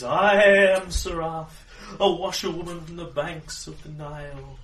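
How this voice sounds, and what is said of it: Exaggerated gypsy fortune-teller accent. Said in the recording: “her voice changes slightly and puts on a slightly different accent, but I prefer my preposterous gypsy one.”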